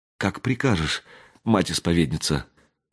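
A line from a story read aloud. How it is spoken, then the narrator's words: Trembling younger woman's voice. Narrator (Russian): проговорила дрожащим голосом та, что помоложе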